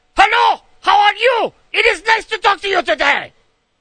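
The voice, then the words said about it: Mock German accent, sounds like yelling. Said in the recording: “it sounds like they're yelling at you. Because they're saying in their German accent”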